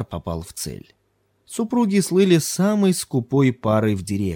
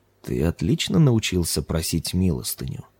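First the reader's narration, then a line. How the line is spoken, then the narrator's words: Approving purr. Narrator (Russian): одобрительно промурлыкал жрец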